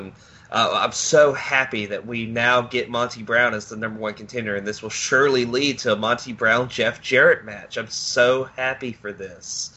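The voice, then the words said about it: Sarcastic, mock-enthusiastic tone. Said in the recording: “Can you tell I'm being sarcastic?”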